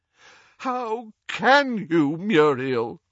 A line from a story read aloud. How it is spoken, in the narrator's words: groaned Doge